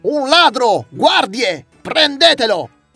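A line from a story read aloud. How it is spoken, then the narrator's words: Shouting. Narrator (Italian): quello cominciò a gridare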